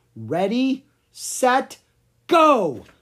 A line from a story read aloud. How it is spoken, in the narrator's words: shouted Lucas